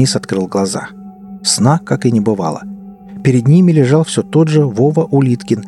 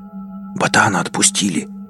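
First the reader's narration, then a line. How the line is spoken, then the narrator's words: Excited whisper. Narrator (Russian): Пашка возбужденно прошептал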